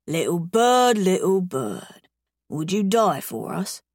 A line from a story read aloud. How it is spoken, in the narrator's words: He murmurs